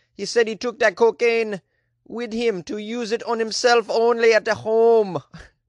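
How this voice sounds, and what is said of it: Put-on Jamaican accent. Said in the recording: “How's that Jamaican accent? Is that okay?”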